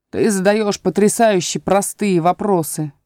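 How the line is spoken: Booming. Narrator (Russian): прогремел Пустик-Дутик

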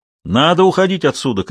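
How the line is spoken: Shout. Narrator (Russian): крикнул Вильсон

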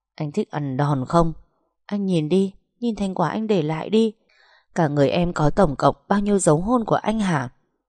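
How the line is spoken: Stern, emphatic. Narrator (Vietnamese): Cô gằn giọng

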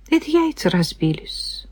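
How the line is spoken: Quiet explanation. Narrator (Russian): тихо пояснила я

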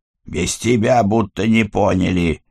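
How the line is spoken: Grumbled. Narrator (Russian): пробурчал Киря

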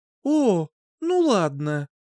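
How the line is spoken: Sighing. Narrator (Russian): вздохнула

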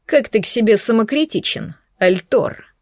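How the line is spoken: Mocking snort. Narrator (Russian): издевательски хмыкнул наемник

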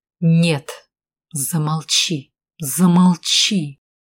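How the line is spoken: Seething through teeth. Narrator (Russian): процедил сквозь зубы, весь побагровев Валкер

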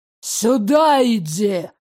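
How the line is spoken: Growl. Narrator (Russian): зарычал Ирик

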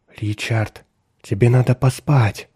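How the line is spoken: Soft, quiet speech. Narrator (Russian): негромко проговорила

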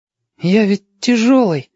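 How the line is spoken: Uncertain protest. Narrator (Russian): неуверенно заспорил

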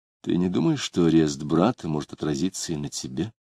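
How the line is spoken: Quiet question. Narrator (Russian): тихо спросила

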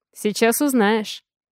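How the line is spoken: Snort. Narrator (Russian): хмыкнул я

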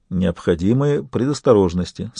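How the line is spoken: Calm. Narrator (Russian): сказал барон спокойно

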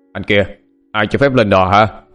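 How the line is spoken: Startled shouting. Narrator (Vietnamese): tỏ vẻ sửng sốt, tiếng quát tháo

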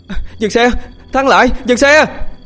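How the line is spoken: Panicked shout. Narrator (Vietnamese): tiếng hét hoảng loạn của Huy

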